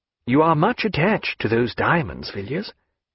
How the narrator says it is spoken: he said kindly

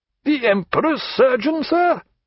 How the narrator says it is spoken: cried the governor

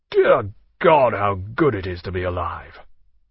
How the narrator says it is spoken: filled his lungs, and said aloud

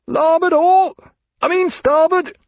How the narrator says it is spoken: through the crash of the blow and the roar of the sea, he heard Hyde's voice at an infinite distance shout

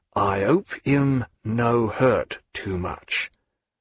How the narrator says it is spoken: he said to Yegyello in an undertone

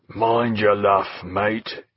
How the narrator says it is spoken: in a hoarse growl

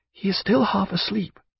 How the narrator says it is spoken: whispered Diana

